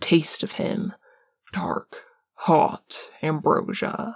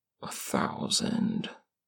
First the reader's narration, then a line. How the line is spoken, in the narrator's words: Dean mumbles into Parm's shoulder